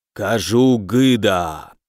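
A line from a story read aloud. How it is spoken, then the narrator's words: Solemn necromancer declaration. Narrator (Russian): торжественно заявил некромант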